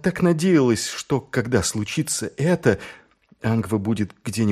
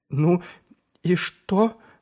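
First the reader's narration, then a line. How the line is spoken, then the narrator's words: Trembling question. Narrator (Russian): дрожащим голосом справилась Шелли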